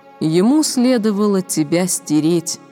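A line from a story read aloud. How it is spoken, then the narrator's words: Plain. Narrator (Russian): сказала я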